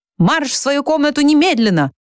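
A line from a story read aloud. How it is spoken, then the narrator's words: Yelling close by ear. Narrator (Russian): завопил над ухом Щепка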